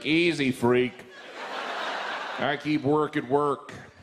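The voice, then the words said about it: Imitates another person's voice. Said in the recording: “that was a good impression of the Pope”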